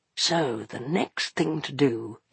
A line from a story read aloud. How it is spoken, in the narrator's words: he murmured